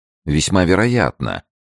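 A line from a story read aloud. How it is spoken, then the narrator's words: Calm phlegmatic interruption, man. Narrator (Russian): перебил мужчина самым спокойным и флегматичным тоном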